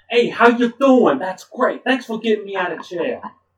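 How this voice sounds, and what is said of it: Exaggerated Brooklyn accent. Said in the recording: “she has a terrible Brooklyn accent.”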